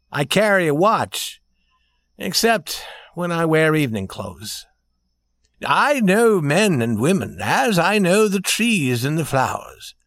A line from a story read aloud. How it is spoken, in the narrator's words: said the prince warmly and proudly